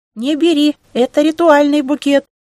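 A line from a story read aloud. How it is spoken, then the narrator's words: Squeaking. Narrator (Russian): пискнула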